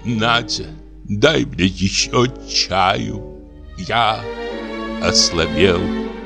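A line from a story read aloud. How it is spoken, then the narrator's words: Languid, weary voice. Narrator (Russian): Разбитый, утомленный, говорит томным голосом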